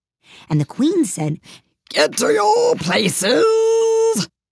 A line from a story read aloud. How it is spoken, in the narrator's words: shouted the queen in a voice of thunder